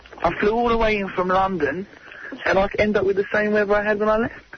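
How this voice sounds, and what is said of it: Bad fake English accent. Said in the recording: “That's the worst English accent I've ever heard.”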